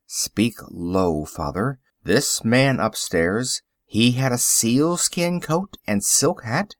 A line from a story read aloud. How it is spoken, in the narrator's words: dropping his voice, he said